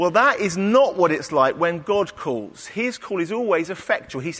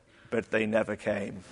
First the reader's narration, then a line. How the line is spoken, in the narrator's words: Dick shook his head sadly and said